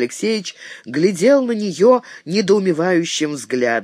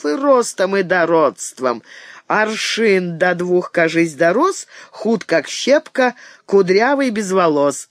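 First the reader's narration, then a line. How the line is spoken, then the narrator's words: Loud laughter. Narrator (Russian): захохотала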